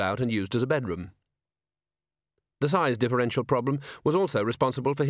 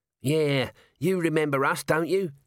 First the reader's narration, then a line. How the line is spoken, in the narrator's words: said Nobby, in a wheedling voice